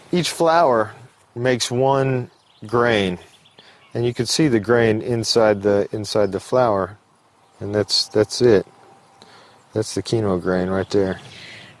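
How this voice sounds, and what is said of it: American accent from Tennessee. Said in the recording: “As you can hear from his accent, ... isn't French. He's originally from Tennessee in the United States.”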